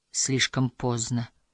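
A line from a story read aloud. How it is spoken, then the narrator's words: Sad. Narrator (Russian): печально произнесла, будто отвечая на предостережение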